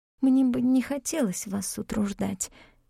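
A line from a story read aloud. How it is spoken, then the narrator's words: Whispered. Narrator (Russian): прошептала я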